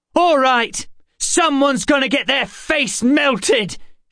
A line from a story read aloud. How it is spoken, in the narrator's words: she yelled